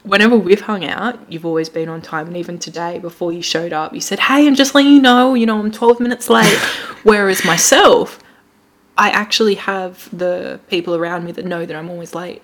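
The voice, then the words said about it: Put-on Australian accent. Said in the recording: “sounding very Aussie again ... We're going with Australian again.”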